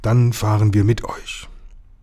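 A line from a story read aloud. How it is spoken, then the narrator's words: Quiet answer. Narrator (German): antwortete leise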